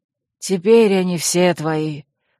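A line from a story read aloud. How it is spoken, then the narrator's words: Gruff mutter, old man. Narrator (Russian): буркнул седой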